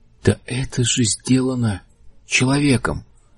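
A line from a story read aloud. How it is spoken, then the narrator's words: Mutter. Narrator (Russian): пробормотал Лэри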